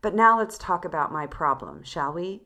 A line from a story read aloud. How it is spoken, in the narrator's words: said Olga Sergeyevna, interrupting herself in that dry, clear voice of hers, which reminded me of her mother's compelling voice